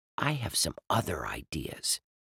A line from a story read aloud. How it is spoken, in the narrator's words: Dink added quietly